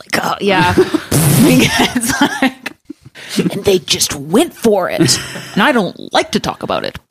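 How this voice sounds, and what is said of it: Impression of Dan Carlin. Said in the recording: “do a Dan Carlin impression ... I'm going to assume that was a great impression”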